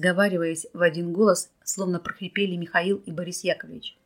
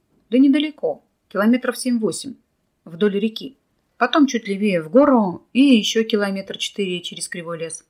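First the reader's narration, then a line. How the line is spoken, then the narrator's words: Tired. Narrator (Russian): устало произнес Николай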